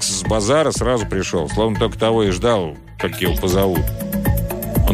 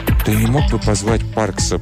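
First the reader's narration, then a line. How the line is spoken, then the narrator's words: Quiet request. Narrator (Russian): попросила она тихим голосом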